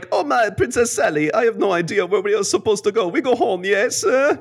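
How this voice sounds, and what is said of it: Put-on French accent, sounds Italian. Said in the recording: “So did they actually have French accents? ... That's almost Italian. ... I can't do the accent as well. ... It sounds like Mario dropped into the wrong cartoon.”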